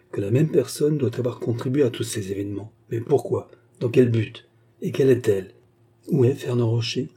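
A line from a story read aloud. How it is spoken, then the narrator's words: Murmured. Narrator (French): murmura Armand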